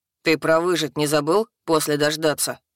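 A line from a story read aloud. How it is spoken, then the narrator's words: Displeased snort. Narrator (Russian): хмыкнул Хак, неприятно пораженный картиной, нарисованной живым воображением лиса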